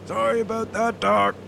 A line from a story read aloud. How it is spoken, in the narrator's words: Moe yelled over the sound of the whining propeller